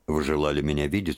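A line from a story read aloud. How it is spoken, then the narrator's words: Cold. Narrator (Russian): сказал он, холодно кланяясь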